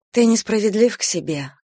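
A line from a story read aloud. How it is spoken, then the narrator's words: Gentle remark. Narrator (Russian): мягко заметила Эстер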